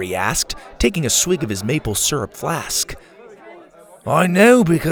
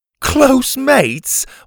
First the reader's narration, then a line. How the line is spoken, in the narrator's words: Watson laughed